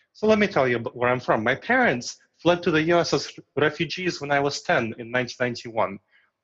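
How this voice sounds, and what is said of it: Foreign Eastern European accent. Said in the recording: “I don't look like a foreigner... As long as I don't open my mouth and reveal my accent. So my accent is obviously why people ask where I'm from”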